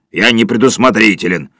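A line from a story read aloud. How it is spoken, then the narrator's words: Grumbling. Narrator (Russian): проворчал Сиверсон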